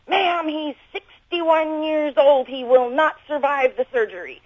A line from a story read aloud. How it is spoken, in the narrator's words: He just sort of yelled at me on the phone and said